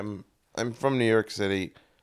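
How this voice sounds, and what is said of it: Bad fake New York accent. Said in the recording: “That's about the most shite New York accent I've ever heard ... That is about the worst”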